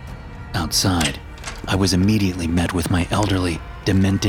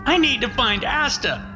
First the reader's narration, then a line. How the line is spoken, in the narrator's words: she yelled